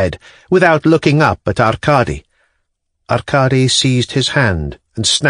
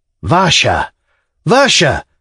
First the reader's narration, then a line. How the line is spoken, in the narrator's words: cried Arkady in despair